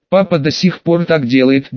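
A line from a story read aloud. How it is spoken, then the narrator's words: Girl's muffled giggle. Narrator (Russian): девушка мелко хихикнула в руку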